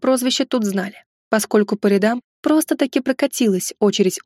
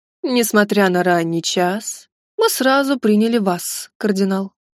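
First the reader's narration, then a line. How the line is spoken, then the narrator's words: Lazy, condescending. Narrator (Russian): заговорил Алексиос III Ангелос ленивым вальяжным голосом, словно делал нам одолжение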